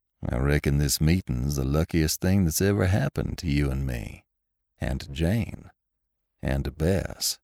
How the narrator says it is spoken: said Lassiter coolly

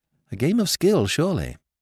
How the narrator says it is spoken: murmured Jimmy

